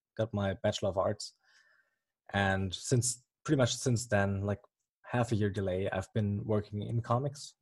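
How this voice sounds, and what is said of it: German accent. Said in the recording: “as you may or may not hear from the accent, I'm from Germany”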